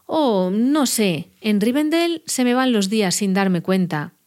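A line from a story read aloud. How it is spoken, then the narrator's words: Plain. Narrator (Spanish): dijo Bilbo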